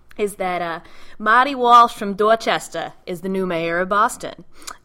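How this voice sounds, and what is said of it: Put-on Boston accent. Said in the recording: “I'm going to try to put on my long-lost Boston accent”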